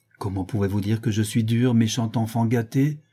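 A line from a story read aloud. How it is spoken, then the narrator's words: Astonished exclamation. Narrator (French): s'écria ma maîtresse, stupéfaite de cette assertion déraisonnable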